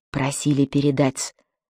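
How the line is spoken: Lowered voice. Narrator (Russian): сказал он пониженным тоном

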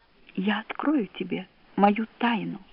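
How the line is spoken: Barely audible. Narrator (Russian): говорит чуть слышно

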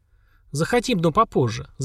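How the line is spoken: Happy laughter. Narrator (Russian): засмеялась счастливая Лера

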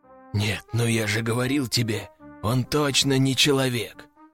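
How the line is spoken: Whisper from behind. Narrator (Russian): Послышался шепот за моей спиной

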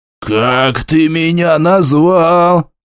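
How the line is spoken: Dwarf's hiss. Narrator (Russian): прошипел гном

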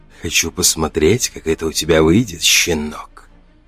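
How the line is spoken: Breathy, hungrily curious whisper. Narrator (Russian): выдохнул он, и в его шепоте слышалось искреннее голодное любопытство

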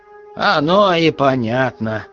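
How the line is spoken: Chuckling. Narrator (Russian): хохотнул повар-раздатчик

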